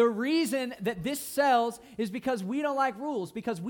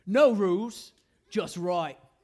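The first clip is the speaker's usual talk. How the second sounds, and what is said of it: Fake Australian accent. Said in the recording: “this super fake Australian accent. I know it's fake. ... That's pretty good, right?”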